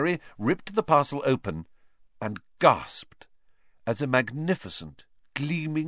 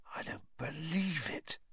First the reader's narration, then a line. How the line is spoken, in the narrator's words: he said hoarsely